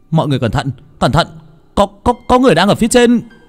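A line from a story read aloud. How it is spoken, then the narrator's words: Shouted. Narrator (Vietnamese): tiếng ai đó hét lên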